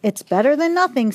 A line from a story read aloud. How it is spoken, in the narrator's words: said Mama, laughing